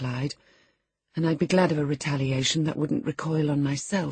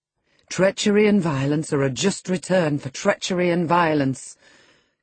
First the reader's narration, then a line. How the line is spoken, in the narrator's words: cried Hindley